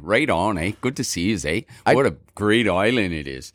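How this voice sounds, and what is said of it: Put-on Canadian accent. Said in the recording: “Or should I do the Canadian?”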